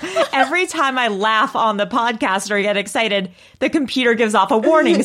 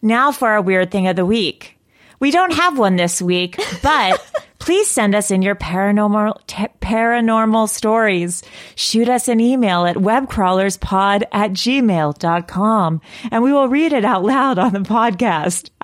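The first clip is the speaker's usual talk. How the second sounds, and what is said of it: NPR radio announcer voice. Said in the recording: “do my NPR voice. ... That's a nice voice.”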